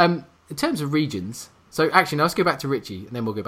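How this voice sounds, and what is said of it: Usual voice. Nothing is said of it.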